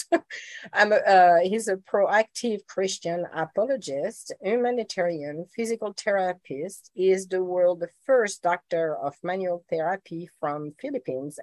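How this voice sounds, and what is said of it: Sick-sounding, impaired voice. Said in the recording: “I'm a little bit sick, so my voice is not good and my pronunciation even worse.”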